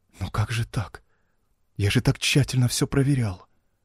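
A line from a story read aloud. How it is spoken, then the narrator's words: Shocked whisper, rain. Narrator (Russian): потрясенно прошептал я сквозь барабанящий в окно дождь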